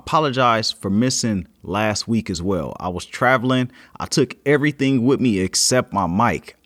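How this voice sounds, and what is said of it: Sick, rough-throated voice. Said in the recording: “I've been a little under the weather, so you may hear it in my voice. I've been having this cough and my throat's been crazy”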